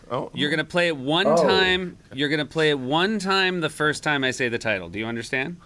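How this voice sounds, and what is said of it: Stern, clear parental tone. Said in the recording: “dad voice”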